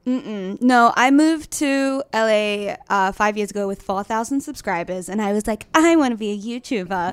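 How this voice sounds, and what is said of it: Australian accent, slightly Americanized. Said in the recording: “you're from Australia originally ... my accent is so weird ... it is a very fun accent”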